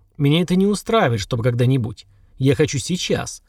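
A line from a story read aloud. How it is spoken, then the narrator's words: Cold. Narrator (Russian): холодно сказал Сергар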